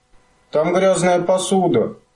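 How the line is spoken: Miserable shout. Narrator (Russian): несчастным голосом закричал мумитроль

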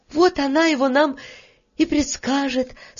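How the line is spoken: Relieved sigh. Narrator (Russian): с облегчением вздохнула Таня и скороговоркой повторила слова

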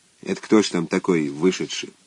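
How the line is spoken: Quiet question. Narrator (Russian): первый сосед тихо спросил

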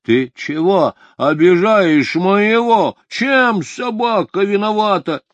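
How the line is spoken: Indignant shout. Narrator (Russian): Петр крикнул

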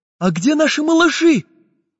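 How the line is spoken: Anxious question. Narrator (Russian): Взволнованно спросил карандаш

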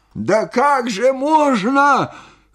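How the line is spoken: Astonished shout. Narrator (Russian): крикнул он, изумляясь моему спокойствию

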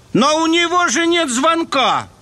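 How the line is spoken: Exclamation. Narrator (Russian): воскликнул Джеймс

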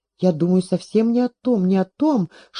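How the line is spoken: Whispering. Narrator (Russian): шептала Щербатова

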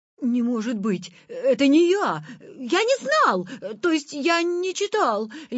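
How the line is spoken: Babbling. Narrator (Russian): лепетал Витя

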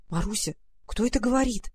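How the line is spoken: Frightened whisper. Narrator (Russian): в страхе прошептала она

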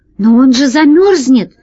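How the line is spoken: Exclaiming. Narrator (Russian): воскликнул Пашка

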